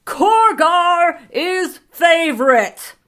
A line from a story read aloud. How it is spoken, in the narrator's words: Corgar's booming voice